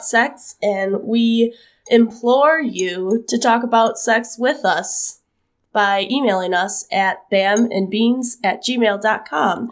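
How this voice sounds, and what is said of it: Sick, husky sultry voice. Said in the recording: “what's with that sultry tone in ... ' voice? It's because I am sick ... I have caught the sickness, and so that makes me sound like a drag queen ... like literal garbage, like what I sound like right now”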